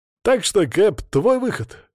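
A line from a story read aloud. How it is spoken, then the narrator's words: Snorting remark. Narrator (Russian): хмыкнул Шамиль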